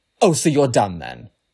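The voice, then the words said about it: Sassy voice. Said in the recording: “in my sassiest voice that I can muster”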